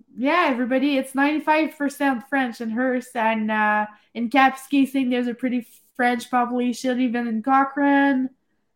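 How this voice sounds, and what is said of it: Heavy French accent. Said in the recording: “you've got a really heavy French accent”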